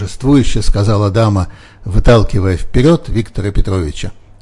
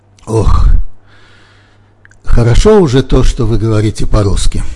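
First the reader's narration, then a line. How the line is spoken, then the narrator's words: Sighing. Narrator (Russian): вздохнул Буренин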